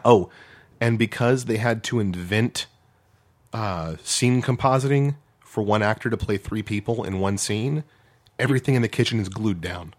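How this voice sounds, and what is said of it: Hoarse, strained voice. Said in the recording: “before I can no longer speak, because I'm losing my voice”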